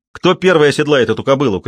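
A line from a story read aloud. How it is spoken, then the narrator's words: Shout. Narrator (Russian): крикнул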